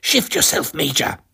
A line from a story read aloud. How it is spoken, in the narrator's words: hissed at him